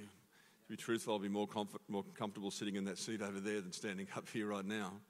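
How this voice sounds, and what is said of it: Speaks with a noticeable accent. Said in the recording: “I'm just you with a funny accent”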